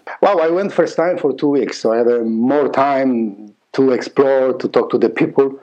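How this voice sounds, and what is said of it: Polish accent. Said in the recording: “I have that beautiful accent still. I'm Polish. I'm from Poland.”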